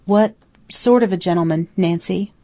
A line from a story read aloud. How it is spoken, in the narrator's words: faltered